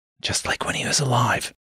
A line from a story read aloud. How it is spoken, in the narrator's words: Jason whispered